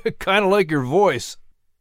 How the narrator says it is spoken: Langlu chuckled warmly

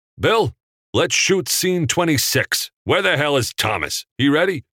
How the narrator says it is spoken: yelled out

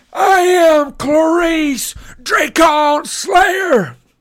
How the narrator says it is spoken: she yelled

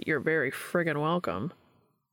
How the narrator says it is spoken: Dean grumbled a sarcastic

